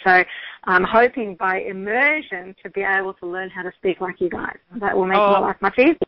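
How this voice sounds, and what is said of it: Australian accent. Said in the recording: “my Aussie accent ... I do love the Aussie accent that you have”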